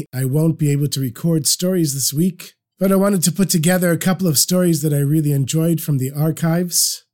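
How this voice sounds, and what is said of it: Sick-sounding voice. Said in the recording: “As you can hear from my voice, I'm recovering from the flu”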